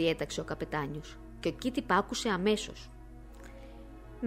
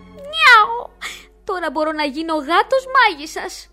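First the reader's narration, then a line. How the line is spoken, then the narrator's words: Joyful howl. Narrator (Greek): ούρλιαζε από τη χαρά του ο Κιτ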